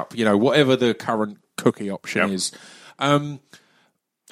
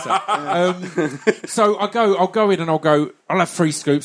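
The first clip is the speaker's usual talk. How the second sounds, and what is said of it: Imitates another person's accent. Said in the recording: “why is he doing that in Chris's accent?”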